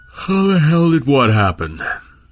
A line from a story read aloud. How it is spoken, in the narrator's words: Milne asked, around a yawn born of too little sleep